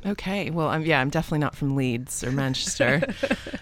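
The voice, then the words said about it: Mixed North American accent. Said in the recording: “not a um a plummy British accent ... North American ... this kind of mixed accent”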